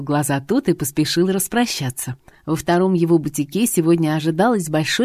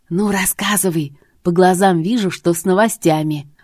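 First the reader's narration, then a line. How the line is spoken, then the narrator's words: Eager breathless exclamation. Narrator (Russian): Выдохнула подруга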